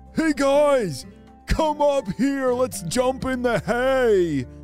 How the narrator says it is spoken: he called out

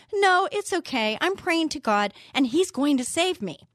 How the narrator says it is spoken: The stranded fellow shouted back

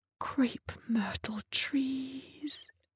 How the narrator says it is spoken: Rose whispered, wiping her eyes again

